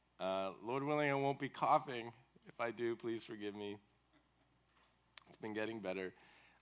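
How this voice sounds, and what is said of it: Lower-pitched voice from illness. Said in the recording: “my voice sounds a little bit different today, caught a bug last week, still not all the way over it... lower key, lower pitch today”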